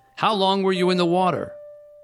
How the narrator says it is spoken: Nevin yelled

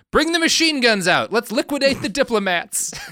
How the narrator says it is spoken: Stalin shouts out

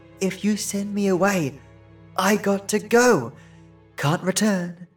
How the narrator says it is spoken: she whispered

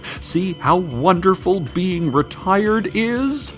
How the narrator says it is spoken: she shouted behind her as she sprinted away, smoke-fueled tears streaming from her sunken eyes

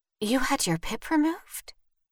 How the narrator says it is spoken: Vivian whispered

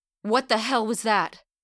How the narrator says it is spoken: Dakota cried out over the blaring cockpit alarms

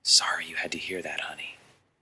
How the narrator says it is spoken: whispering in her ear

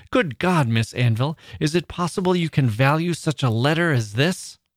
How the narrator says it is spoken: in a passionate manner, exclaimed

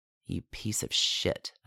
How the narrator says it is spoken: said quietly so that no one could hear

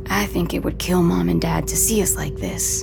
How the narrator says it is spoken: In a low voice, Nico says

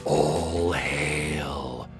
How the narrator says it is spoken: A few of the dragons are whispering upon seeing the cloud approach

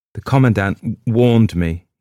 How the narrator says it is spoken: he said brokenly

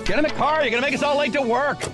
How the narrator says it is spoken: someone yelled

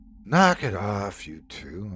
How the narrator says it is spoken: I sighed

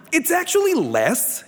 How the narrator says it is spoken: he said brightly

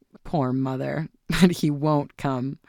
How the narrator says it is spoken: her son laughed

